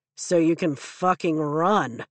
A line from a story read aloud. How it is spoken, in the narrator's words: Riddick drawls